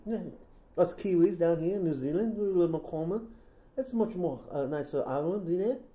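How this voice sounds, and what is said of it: Put-on soft New Zealand accent. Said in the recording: “I do a more better New Zealand accent... Because New Zealand is a little bit more softer. A little softer. And the R's there.”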